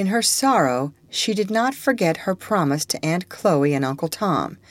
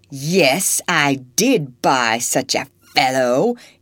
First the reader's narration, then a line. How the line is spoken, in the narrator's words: growled in rage